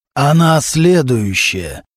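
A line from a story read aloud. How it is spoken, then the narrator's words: Hoarse male voice, phone. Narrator (Russian): раздался из трубки хриплый мужской голос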